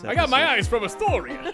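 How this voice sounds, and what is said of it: Super Mario cartoon voice. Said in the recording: “What is this accent? ... I'm Super Mario.”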